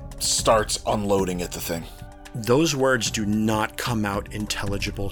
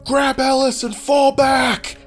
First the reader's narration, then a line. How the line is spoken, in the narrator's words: he just screams